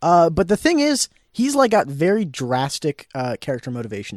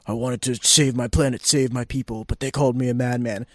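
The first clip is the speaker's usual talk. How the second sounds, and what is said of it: Impression of Thanos. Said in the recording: “a scary good impersonation of Thanos”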